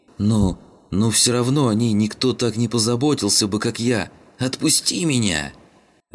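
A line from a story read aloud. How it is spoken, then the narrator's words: Terrified screaming. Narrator (Russian): вопил тот в ужасе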